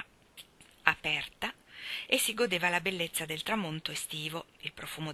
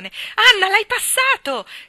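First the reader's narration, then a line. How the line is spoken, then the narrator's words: Shouting. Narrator (Italian): gridò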